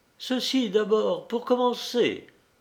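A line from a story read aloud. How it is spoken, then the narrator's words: Cheerful exclamation. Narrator (French): s'écriait-elle gaiement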